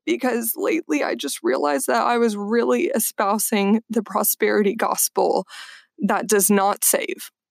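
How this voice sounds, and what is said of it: Voice cracking, close to tears. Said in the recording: “my voice is cracking and I'm trying not to be super awkward and cry”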